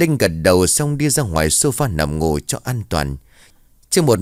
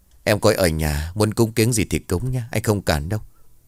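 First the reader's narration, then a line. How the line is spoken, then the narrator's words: Sighing. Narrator (Vietnamese): Anh Tân thở dài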